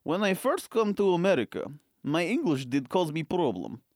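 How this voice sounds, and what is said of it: Put-on foreign accent. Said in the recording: “a little bit of an accent”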